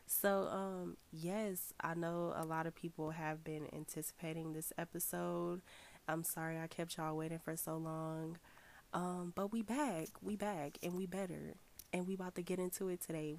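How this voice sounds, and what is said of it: Deep, congested voice from a cold. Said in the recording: “my voice sounds really crazy. I am trying to get over a cold, so excuse me if I sound like a man.”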